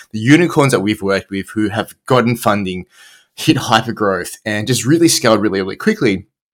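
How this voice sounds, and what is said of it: Australian accent. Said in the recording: “as you can probably tell from the accent, I'm Australian”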